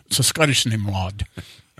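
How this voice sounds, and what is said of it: Attempted Scottish accent. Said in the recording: “that's about as good as I get at my Scottish impression there. Halfway through my impressions, they all somehow end up sounding German.”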